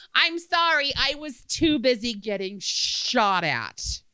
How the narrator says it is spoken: Losing my temper and being the snarky smartass I was back then, I yelled

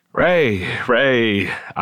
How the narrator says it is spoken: repeated, my voice cracking

